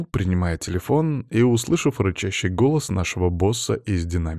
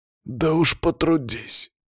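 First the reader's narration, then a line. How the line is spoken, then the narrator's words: Forced out. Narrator (Russian): выдавил Палыч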